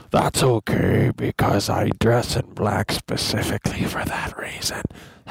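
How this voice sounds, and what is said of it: Darth Vader character voice. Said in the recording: “my Darth Vader impression”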